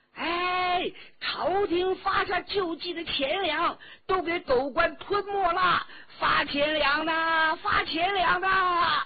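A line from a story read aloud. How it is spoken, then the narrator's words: Crowd member shouting. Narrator (Chinese): 灾民当中有人叫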